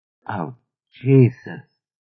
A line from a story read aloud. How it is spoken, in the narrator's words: Mary Alice said, so hoarsely that at first Chia couldn't identify the source